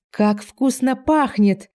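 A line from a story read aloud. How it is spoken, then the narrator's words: Joyful shout. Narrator (Russian): радостно закричал долговязый Вилли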